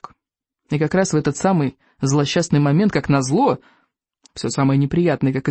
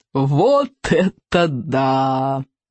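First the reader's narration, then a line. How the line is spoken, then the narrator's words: Roaring laughter. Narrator (Russian): захохотал Сморкала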